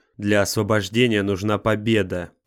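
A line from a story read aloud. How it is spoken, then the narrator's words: Growling. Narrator (Russian): прорычал Ниборан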